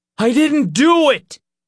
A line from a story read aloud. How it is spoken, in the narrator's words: Nick shouted